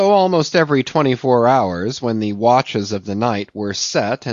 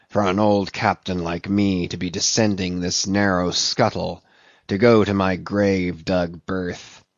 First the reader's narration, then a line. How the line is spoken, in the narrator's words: he would mutter to himself